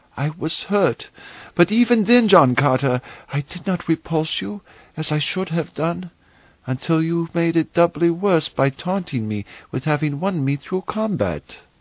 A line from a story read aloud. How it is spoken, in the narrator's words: she faltered